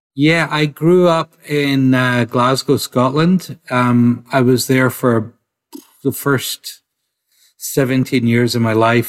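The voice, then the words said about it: Scottish accent. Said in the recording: “you have a Scottish accent”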